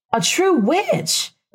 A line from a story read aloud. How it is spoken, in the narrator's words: Rebecca exclaimed, delighted